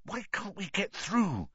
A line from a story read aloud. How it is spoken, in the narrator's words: Harry hissed to Ron